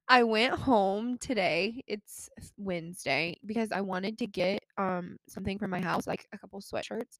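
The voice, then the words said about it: Nasal, congested voice. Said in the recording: “if you think I'm sounding a little nasally, it's because I sound nasally, because I was just crying”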